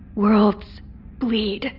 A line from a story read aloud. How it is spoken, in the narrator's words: Kairos whispered